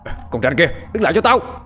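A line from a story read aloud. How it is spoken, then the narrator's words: Shouted. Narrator (Vietnamese): Chúng quát lên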